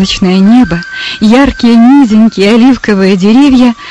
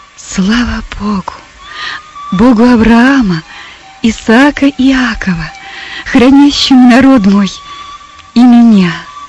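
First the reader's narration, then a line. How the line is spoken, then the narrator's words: Awed triumphant whisper. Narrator (Russian): Персида, охваченная торжеством и величием открывшейся картины, прошептала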